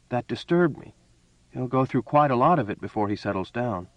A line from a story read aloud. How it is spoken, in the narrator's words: she added hastily